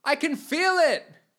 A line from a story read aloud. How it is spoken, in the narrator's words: shouted Landon